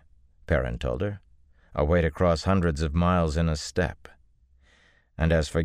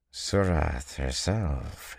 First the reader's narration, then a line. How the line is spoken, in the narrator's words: he murmured